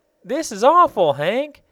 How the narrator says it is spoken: cried Betsy in a loud voice

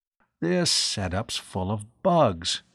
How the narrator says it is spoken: he muttered

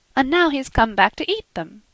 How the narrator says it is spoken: cried Marie

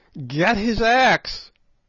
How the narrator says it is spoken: yelled Good

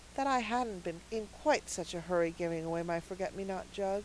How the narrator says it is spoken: added Cecily with a sigh

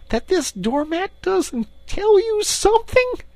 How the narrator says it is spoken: cried the excited Rat

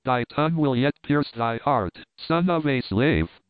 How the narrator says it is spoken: he cried

